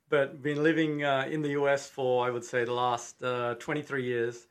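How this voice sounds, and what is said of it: Slight Australian accent. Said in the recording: “do I detect a bit of an Australian accent there?”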